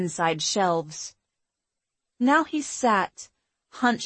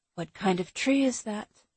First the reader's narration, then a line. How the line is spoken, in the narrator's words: whispered